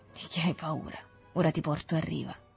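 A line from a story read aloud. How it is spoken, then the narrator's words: Low voice, to himself. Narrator (Italian): disse con voce bassa, come parlando a se stesso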